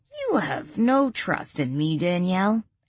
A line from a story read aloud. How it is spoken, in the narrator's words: Adam scoffed